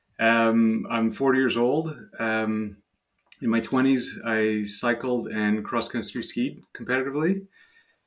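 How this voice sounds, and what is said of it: French Canadian accent. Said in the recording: “I'm French Canadian. That's where the French accent is from.”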